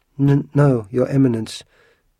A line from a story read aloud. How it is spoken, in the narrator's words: stuttered the woman